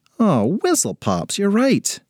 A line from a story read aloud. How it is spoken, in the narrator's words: groaned Ashley